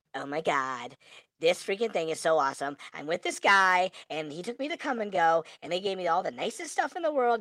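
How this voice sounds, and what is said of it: High-pitched little girl voice. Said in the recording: “I'm going to push my girl voice on for a second ... I hate that little girl voice.”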